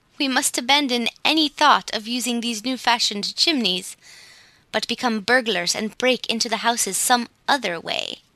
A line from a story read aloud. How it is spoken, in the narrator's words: declared the laughing Whisk